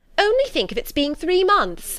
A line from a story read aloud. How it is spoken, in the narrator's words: she cried